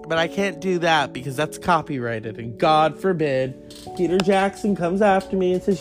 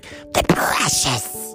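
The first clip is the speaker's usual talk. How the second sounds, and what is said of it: Gollum character voice. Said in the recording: “you did Gollum”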